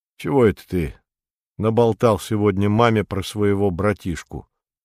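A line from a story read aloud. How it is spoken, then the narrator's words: Sad, gloomy question. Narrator (Russian): дядюшка Римус так грустно, уныло спросил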